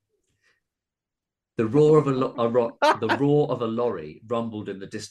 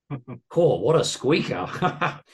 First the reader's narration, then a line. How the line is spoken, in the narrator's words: He laughed